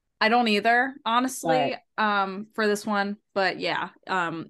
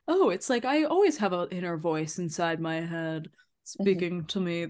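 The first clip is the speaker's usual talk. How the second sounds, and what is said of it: Imitates a game character's voice. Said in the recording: “my Kibo impression”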